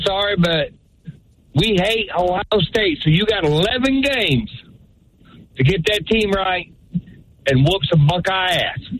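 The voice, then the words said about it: Southern-sounding accent. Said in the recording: “I thought my boy ... was from down south. I like that accent ... as soon as I heard the accent”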